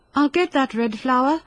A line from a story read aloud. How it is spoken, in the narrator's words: she cried with glowing cheeks and beaming eyes